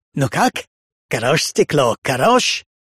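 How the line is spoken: Repulsive voice. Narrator (Russian): спросил Коппола своим отвратительным голосом

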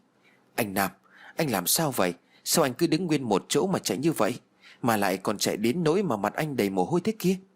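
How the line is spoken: Worried, frightened voice. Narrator (Vietnamese): lo lắng sợ hãi

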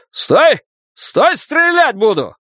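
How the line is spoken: Yell. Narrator (Russian): полицейский заорал

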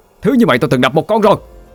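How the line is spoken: Shout. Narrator (Vietnamese): Tôi hét

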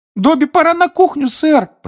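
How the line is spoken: Squeaky voice. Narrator (Russian): пропищал Добби в коридоре

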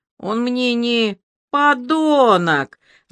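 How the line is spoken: Sudden loud shout. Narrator (Russian): Варя закричала так неожиданно и громко

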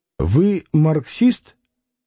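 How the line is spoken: Plain. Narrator (Russian): спросил Клим

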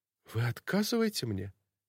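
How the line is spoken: Bewildered whisper. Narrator (Russian): Полное непонимание, растерянный взгляд и губы, которые прошептали

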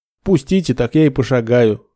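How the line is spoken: Snorting. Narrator (Russian): хмыкнул Нед

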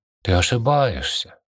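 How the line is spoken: Soft objection. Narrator (Russian): мягко возразила она

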